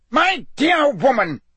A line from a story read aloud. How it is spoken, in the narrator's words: roared Fudge, who likewise looked angrier than Harry had ever seen him